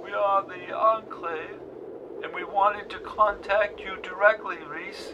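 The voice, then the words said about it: Speaks English with a strange accent. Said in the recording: “spoke English with a strange accent.”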